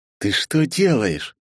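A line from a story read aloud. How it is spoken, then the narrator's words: Hiss. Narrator (Russian): прошипел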